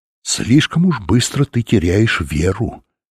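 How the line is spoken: Plain. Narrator (Russian): ответил ему учитель

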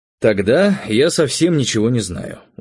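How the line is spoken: Tired. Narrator (Russian): устало сказал я

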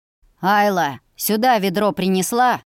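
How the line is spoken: Barked by father. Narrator (Russian): рявкнул отец

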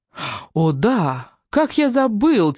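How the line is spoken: Theatrical exclamation. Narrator (Russian): театрально воскликнул Раф

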